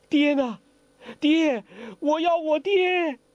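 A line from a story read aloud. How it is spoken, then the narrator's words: Loud wailing cry. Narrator (Chinese): 黄蓉悠悠醒来，大哭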